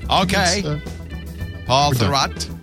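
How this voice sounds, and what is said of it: Put-on Maine accent. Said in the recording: “I don't know why I do a Maine accent”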